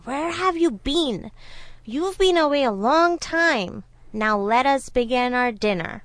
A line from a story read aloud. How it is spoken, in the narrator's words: he growled loudly at the Brahmin and said